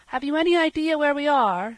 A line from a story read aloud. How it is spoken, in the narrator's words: shouted Dan to Peter